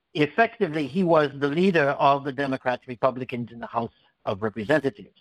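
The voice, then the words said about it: Noticeable foreign accent. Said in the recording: “you can hear that I have an accent. Some would call it a speech impediment ... incomprehensible speech”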